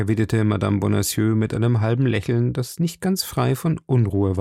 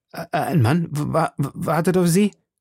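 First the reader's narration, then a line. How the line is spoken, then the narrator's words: Stammer. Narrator (German): stammelte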